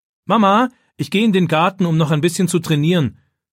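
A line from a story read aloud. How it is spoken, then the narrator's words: Calling out toward another room. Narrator (German): ruft David in Richtung Küche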